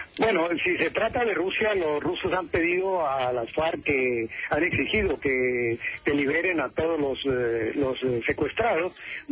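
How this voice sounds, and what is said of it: Colombian Spanish accent. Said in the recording (Spanish): “¿vos sos colombiano? ... Te noté por el acento.”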